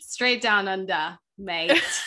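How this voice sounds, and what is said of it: Poor put-on Australian accent. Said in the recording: “That was my worst Australian accent attempt I've ever done.”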